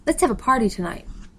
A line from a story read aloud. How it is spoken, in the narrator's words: said brightly